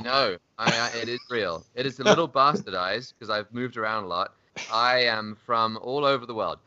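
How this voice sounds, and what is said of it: English accent. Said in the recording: “my accent is English, obviously”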